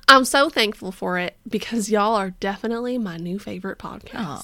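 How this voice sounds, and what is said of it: Put-on Texan accent. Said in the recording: “is she from Texas? ... I don't know if you have an accent, but you do now.”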